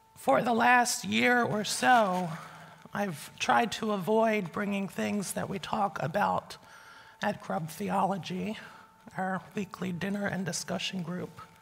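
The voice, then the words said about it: Weak, strained voice. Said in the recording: “My voice is a little weak today, not because I'm sick or anything. I'm very affected by the cold weather and dry air today.”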